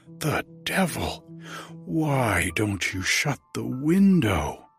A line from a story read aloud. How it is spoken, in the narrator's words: I cried, springing up from the sofa